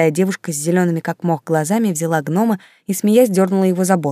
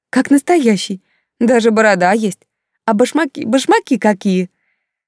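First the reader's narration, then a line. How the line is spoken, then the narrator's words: Excited laughing women. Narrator (Russian): Женщины смеялись, возбужденно обсуждали увиденное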